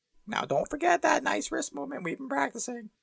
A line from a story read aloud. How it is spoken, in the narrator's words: squeaked Professor Flitwick